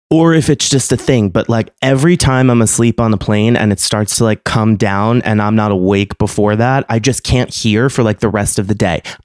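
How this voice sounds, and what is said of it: Congested, whiny nasal voice. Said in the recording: “I have the sinuses of a fucking 92-year-old my entire life and I can't breathe. That's why my voice sounds so whiny”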